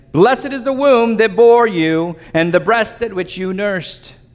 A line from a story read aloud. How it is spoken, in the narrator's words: a woman in the crowd raised her voice and said to him